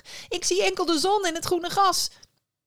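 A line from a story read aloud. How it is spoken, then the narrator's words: Called back. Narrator (Dutch): riep terug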